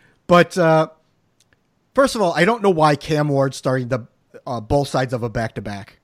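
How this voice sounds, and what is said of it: Usual voice. Nothing is said of it.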